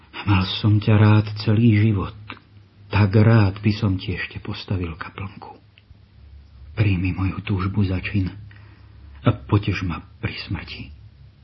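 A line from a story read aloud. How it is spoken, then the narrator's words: Sighing. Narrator (Slovak): vzdychol si Vianý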